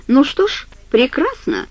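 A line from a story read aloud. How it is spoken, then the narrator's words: Cheerful. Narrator (Russian): весело сказал Глен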